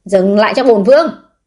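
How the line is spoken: Loud commanding shout. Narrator (Vietnamese): Vũ Thụy An quát lớn

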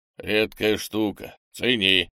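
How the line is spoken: Grumble. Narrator (Russian): проворчал он

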